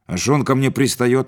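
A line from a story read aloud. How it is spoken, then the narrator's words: Snapping back. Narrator (Russian): огрызнулся Витька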